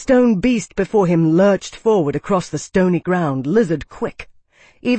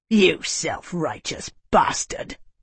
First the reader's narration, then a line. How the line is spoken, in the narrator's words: he hissed